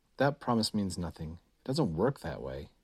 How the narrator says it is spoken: Chris said bitterly

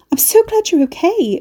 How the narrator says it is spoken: Mercy gasped

